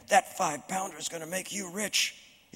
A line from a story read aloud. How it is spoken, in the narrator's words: could only hiss